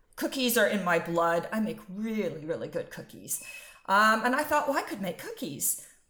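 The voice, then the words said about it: American accent. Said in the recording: “I'm sure you can tell from my accent ... I'm American.”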